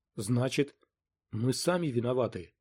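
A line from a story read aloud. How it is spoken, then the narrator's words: Muttering. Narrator (Russian): пробормотала Вейер-Та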